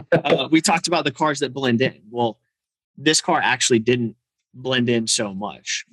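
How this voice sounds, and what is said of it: Hoarse, strained voice. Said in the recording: “I'm like losing my voice.”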